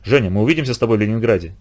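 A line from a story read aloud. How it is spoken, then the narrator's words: Quiet question. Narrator (Russian): тихо спросил я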